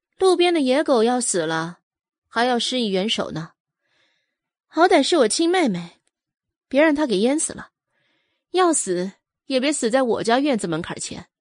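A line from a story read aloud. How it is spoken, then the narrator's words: Indifferent, flat. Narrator (Chinese): 阮明星…淡淡说道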